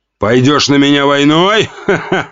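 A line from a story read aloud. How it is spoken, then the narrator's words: Laughing. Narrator (Russian): рассмеялся Жуков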